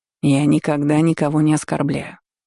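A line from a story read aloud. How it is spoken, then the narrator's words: Calm reply. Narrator (Russian): спокойно ответил Нэри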